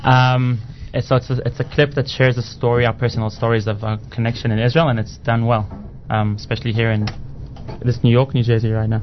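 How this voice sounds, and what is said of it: South African accent. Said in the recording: “where's your accent from? ... South Africa.”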